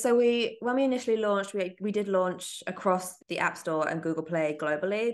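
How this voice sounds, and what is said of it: London accent. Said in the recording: “you've got a London accent”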